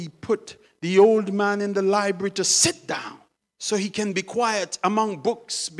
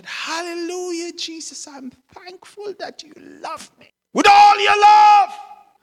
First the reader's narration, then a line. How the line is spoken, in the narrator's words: the old Christian man shouted